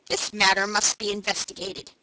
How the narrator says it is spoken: said the merchant firmly

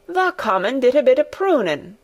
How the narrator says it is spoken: cried Dickon

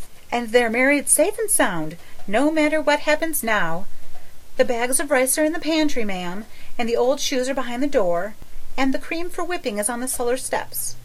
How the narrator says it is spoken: breathed Charlotta the Fourth

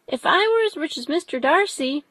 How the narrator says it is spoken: cried a young who came with his sisters

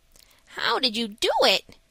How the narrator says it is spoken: asked eagerly

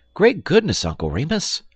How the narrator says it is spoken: exclaimed the little boy in open-eyed wonder

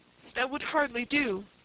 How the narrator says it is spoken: he cried

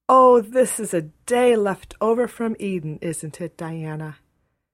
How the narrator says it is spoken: Anne sighed for sheer happiness

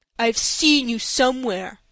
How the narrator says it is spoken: he said in a surly tone, correcting himself

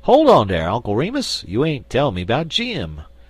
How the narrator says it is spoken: exclaimed the Jonesboro Negro

